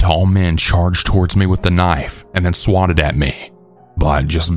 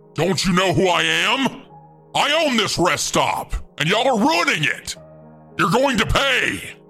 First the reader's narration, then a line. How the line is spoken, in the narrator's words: yelled